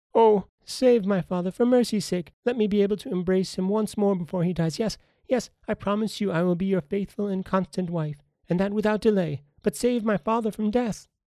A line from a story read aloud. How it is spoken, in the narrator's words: Zelinda, in despair and half mad with grief, cried